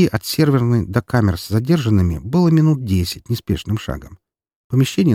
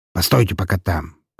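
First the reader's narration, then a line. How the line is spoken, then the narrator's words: Commanding. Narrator (Russian): приказал он амбалам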